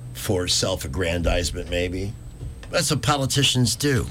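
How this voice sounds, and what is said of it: Usual voice. Nothing is said of it.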